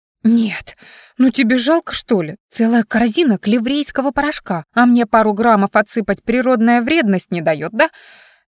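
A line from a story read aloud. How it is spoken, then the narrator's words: Mock shrieking. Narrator (Russian): Я уже притворно визжала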